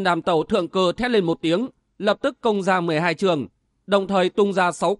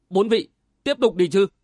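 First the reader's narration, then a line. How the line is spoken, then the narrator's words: Cold. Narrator (Vietnamese): lạnh lùng thốt lên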